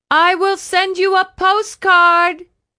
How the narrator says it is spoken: Candelaria shouted over the engine noise

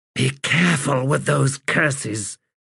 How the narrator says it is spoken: Prahlata said in a hiss

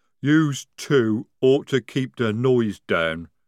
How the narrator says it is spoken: rumbled Jade

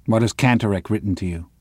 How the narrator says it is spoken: Müller asks him

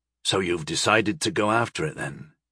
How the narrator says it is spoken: He asked softly

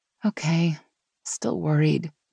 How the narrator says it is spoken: Meg sighed

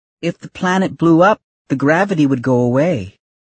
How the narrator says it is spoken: another one of the children called out

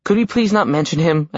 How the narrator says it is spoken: I pleaded

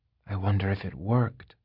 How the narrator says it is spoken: he said softly

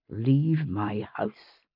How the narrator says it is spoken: he said quietly

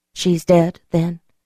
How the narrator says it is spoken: I asked in a hushed voice

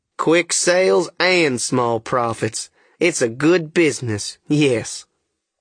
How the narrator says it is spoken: the Duke, he chuckles again and says

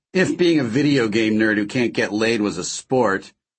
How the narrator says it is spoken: he laughed

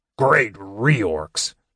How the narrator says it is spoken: the dwarf groaned, staggering to his feet

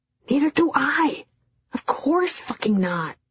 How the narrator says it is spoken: His voice was tight

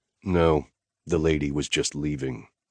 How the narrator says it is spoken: I said icily

